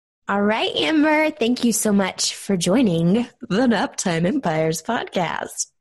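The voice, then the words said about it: Fake radio announcer voice. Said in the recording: “my fake radio announcer voice.”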